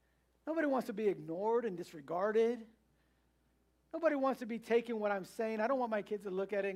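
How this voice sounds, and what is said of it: Usual voice. Nothing is said of it.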